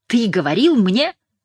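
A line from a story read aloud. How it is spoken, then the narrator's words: Exclaiming. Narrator (Russian): воскликнул Нейл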